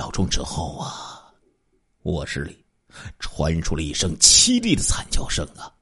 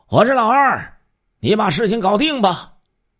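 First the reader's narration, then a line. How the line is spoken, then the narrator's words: Shouted code phrase. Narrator (Chinese): 喊了一句约定好的暗号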